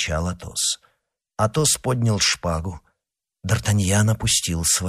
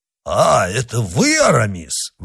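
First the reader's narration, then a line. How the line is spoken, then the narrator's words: Exclaiming. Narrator (Russian): воскликнул Портос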